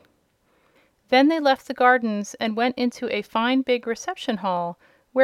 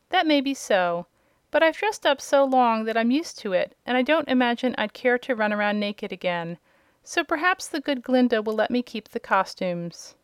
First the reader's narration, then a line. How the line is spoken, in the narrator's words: he faltered